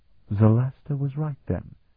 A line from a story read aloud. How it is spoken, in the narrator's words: Oscania murmured